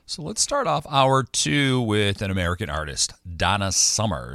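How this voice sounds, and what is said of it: American accent. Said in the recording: “Me and my funny American accent. I'm sounding more and more British, they say.”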